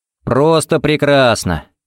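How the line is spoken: Cheerful, sincere reply. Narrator (Russian): бодро отвечал ей Харри и совершенно не кривил душой

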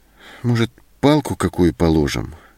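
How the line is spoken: Uncertain suggestion. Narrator (Russian): неуверенно предложила Зоська

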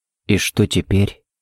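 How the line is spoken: Barely audible question. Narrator (Russian): едва слышно спросил Харри

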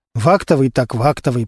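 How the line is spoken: Muttering under breath. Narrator (Russian): пробормотал себе под нос Костя

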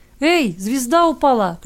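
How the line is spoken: Shouted, child. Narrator (Russian): крикнул кто-то из ребятишек

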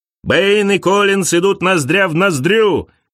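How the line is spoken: Commentator shouting. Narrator (Russian): кричал комментатор

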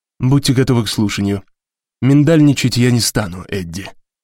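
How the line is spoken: Sighing. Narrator (Russian): вздохнул … сказал

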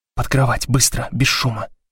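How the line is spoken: Whispered. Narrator (Russian): прошептала Блок

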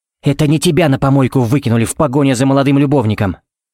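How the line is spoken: Sharp, desperate, angry. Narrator (Russian): Это было так резко, так отчаянно, зло и неожиданно больно

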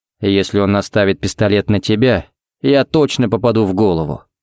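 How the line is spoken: Grim joke. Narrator (Russian): мрачно пошутил Харри

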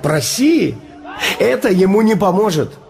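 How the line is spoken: Laughing. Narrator (Russian): Я засмеялся и сказал

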